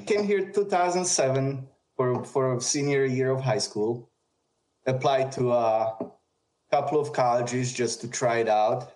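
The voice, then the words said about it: Very strong non-native accent. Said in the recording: “I barely spoke English. I still have a very strong accent.”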